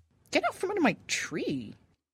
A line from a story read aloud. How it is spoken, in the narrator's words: snapped the dryad